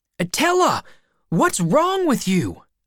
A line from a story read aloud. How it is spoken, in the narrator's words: I shouted